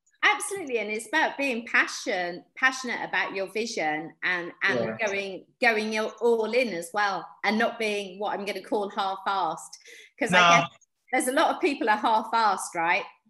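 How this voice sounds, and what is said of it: British accent. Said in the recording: “your nice British accent”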